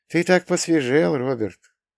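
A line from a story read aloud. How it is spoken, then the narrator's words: Sighing, warm. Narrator (Russian): Джинни вздохнула и сказала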